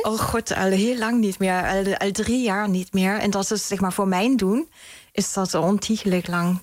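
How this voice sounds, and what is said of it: German accent speaking Dutch. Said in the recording (Dutch): “ik bespeur een Duits accent”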